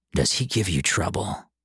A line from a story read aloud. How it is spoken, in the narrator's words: Chet asked in a low, warning voice